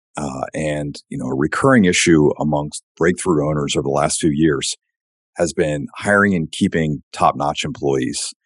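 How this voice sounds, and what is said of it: Damaged, strained voice. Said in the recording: “I apologize for my voice. Recently suffered a traumatic blow to my trachea”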